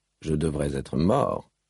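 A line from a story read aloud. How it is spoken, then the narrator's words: Very quiet speech. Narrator (French): dit sa déesse tout bas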